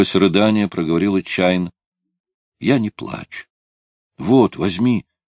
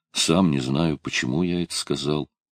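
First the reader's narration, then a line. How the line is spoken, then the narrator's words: Quiet. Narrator (Russian): Тихо сказал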